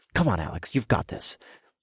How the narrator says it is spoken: I muttered to myself

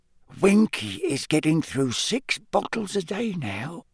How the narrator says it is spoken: Dobby whispered to Harry

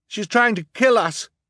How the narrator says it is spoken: Klaus shouted to the audience

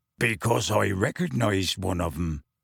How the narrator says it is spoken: Hagrid growled

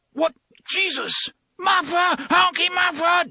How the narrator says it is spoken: Detta screamed

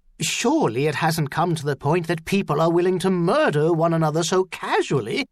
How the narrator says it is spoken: the doctor exclaimed

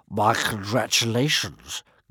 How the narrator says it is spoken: growled One Eye to Hiccup

